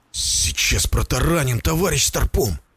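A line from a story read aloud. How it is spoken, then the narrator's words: Tense words through teeth. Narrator (Russian): процедил Заберонин, холодея внутри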